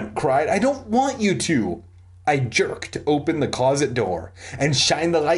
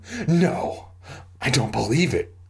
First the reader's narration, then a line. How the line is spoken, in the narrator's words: I gasped